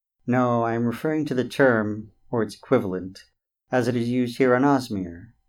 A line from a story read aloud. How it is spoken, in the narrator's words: The tree chuckled in their heads and said